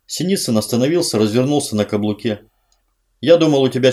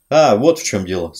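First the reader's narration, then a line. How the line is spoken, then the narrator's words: Plain. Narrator (Russian): сказал Синицын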